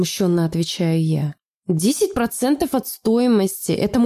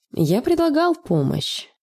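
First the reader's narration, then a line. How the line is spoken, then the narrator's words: Calm. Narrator (Russian): спокойно говорит он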